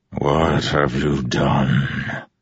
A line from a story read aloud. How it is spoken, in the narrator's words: The distant voice sounded like rumbling thunder